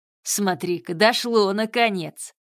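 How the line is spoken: Guffawing savage. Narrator (Russian): расхохотался дикарь

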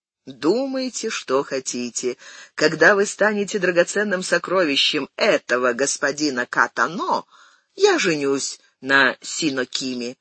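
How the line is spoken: Laughing. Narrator (Russian): засмеялся Митиори

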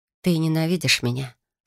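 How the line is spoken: Quiet question. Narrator (Russian): Спросила тихо

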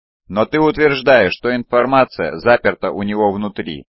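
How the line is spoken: Plain. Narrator (Russian): сказал Тагор

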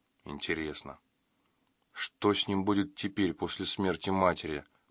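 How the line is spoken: Muttering. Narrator (Russian): пробормотал Марк и Каин

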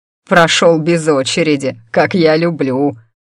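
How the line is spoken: Answering, then laughing. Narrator (Russian): ответил он и снова расхохотался

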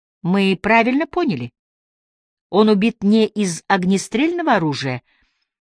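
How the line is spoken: Calm question. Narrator (Russian): тем же спокойным голосом спросил Ажар

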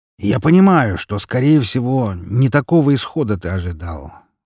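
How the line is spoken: Sighing. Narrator (Russian): вздохнул Лазарев

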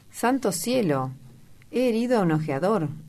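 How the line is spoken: Exclamation. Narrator (Spanish): exclamó Sir Geoffrey

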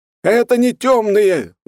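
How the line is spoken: Yelling. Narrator (Russian): завопил монах

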